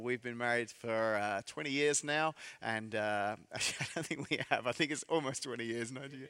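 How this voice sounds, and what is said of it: English accent. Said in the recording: “this fake English accent ... I'm from England”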